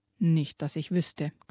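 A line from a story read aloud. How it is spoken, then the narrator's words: Growled. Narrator (German): knurrte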